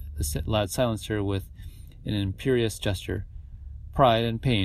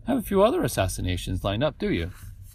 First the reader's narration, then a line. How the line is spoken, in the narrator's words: Danilo asked cheerfully